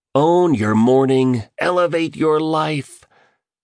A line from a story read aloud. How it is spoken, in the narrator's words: the billionaire shouted with the kind of enthusiasm you'd hear from Roman soldiers on achieving a crucial victory